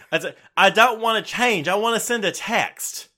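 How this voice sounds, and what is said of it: Put-on Southern twang accent. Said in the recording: “That, that's your accent. ... full on twang.”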